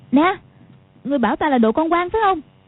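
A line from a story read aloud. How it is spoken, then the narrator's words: Shouting. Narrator (Vietnamese): Quách Phù quát lên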